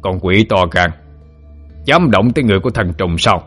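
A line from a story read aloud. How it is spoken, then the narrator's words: Angry shout. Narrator (Vietnamese): Tên dẫn đầu thấy trùng tổ đã sắp bị đánh chết, tức giận chỉ thẳng mặt cậu cả quát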